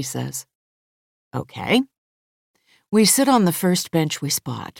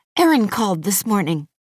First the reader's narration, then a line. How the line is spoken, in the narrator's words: she blurts